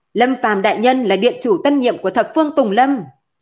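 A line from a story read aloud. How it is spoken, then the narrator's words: Loud. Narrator (Vietnamese): Yến Y Vân lớn tiếng mở miệng nói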